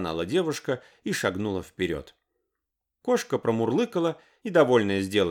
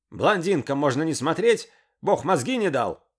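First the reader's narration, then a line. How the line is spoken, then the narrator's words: Yelling. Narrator (Russian): орал он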